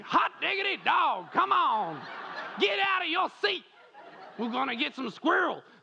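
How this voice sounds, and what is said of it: Put-on hillbilly Southern American accent. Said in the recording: “I get a little American accent ... I just go straight to like hillbilly southern when I try to be American”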